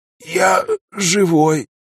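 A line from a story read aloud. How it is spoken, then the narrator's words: Mumbled. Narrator (Russian): пробормотал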